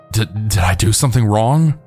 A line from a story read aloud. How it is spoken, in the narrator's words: I had asked in a stuttering and shaky voice to the officer